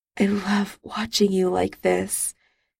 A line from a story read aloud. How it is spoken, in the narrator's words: Charles murmured